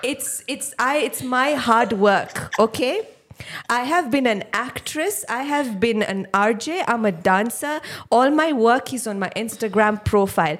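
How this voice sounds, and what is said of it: Imitates another person's accent. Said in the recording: “Accent. ... It's the accent.”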